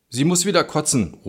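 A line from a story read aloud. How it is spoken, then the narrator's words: Call trailing into silence. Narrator (German): ruft und seine Stimme verstummt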